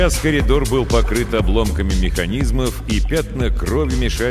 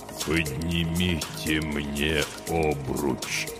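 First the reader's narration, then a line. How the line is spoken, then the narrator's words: Weak-voiced reply. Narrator (Russian): слабым голосом откликнулся Хони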